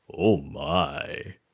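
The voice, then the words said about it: Deep-voiced George Takei impression. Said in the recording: “your impression of George Takei ... I love using that deep voice”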